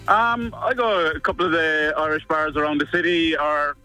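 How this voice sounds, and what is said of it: Well-done put-on accent. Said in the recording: “That's good accent. That is nice. Well done”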